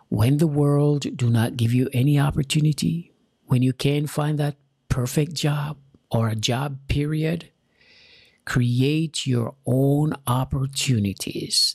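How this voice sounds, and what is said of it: Jamaican accent. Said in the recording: “I'm an immigrant from Jamaica. I have an accent.”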